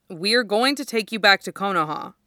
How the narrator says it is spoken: says evenly

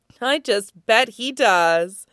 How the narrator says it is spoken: Kate says with another hoarse laugh

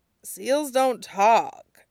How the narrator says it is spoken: Sokka sighed

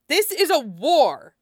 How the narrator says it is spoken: snapped Yesselt

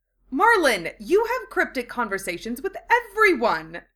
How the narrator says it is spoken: Draco exclaimed in exasperation

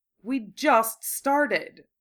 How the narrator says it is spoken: Draco said irritably

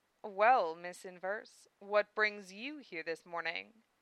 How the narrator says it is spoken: purred the lady's voice

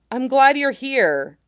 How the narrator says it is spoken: Skywalker exclaimed

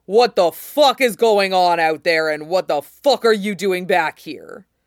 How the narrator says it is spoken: Robert was storming in, and he bellowed

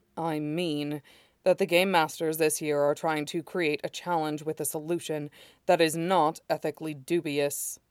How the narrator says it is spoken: states Lan Wangji flatly

